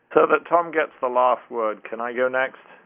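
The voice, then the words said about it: British English accent. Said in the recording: “my funny accent makes me sound like I support the English ... I'm not just a knee-jerk Brit, despite my accent”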